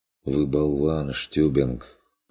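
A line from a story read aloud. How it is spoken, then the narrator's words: Tired reply. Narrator (Russian): устало отозвался он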